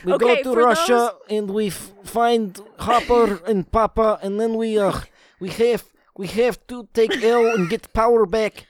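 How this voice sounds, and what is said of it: Put-on Russian accent. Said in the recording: “Do you have a frog in your throat? ... Russian accent. ... I thought that was pretty good.”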